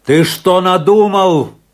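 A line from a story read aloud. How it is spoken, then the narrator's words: Shouted while running. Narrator (Russian): крикнул на бегу Афанасий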